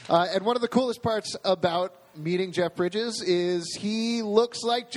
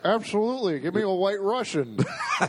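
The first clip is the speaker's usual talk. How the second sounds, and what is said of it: Imitates another person's voice. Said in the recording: “worst Jeff Bridges impersonation”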